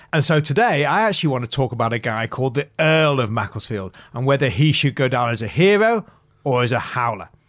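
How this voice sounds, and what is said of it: English accent, not Australian. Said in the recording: “you can probably tell from my voice, I'm not from Sydney originally. I'm from a market town called Macclesfield, which is in Cheshire.”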